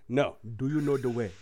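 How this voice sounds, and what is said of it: Put-on Ugandan accent, from throat. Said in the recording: “can you do a Ugandan accent? ... Go to get it from the back of the throat.”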